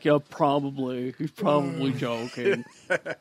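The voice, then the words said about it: Imitates another person's voice. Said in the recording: “good Rhett impersonation ... Sound just like Rhett. ... Just like him.”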